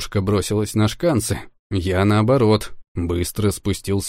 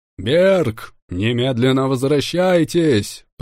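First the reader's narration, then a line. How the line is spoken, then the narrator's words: Thundering. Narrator (Russian): прогремел я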